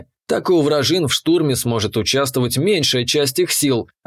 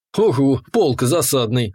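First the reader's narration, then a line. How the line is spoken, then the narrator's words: Snorting. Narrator (Russian): хмыкнул я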